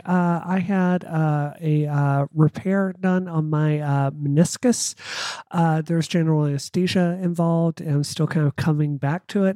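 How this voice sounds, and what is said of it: Weak voice, sore throat. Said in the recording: “If y'all can't hear from my voice, I'm a little weak this week ... my throat is incredibly sore”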